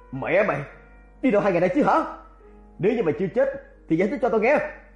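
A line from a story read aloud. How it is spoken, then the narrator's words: Furious shout. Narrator (Vietnamese): giận như mà quát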